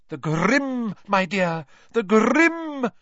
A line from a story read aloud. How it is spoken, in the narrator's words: cried Professor Trelawney, who looked shocked that Harry hadn't understood